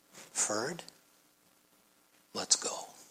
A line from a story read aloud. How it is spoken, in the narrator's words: he just quietly said